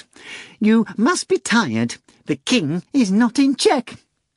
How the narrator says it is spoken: replied in a falsely anxious voice

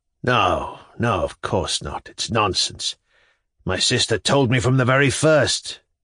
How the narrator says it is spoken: Shatov said, harshly and impatiently, and even with a slight stamp of his foot

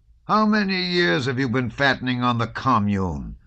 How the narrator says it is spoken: Karp shouted at him

